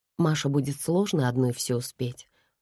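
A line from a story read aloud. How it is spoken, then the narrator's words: Calm answer. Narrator (Russian): спокойно ответил Томаш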